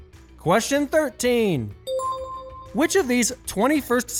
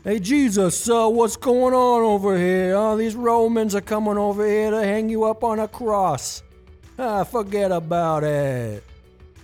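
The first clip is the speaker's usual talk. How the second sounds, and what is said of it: Put-on Brooklyn accent. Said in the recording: “what Jesus' betrayal sounds like with a Brooklyn accent”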